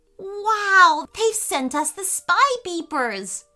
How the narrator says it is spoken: shouted Leo

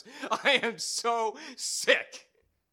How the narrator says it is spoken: laughing, solitary, muttering in library shadows

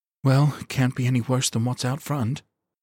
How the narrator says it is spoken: she said with a sigh

